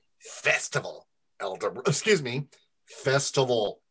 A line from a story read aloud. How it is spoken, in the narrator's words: Eldar grumbled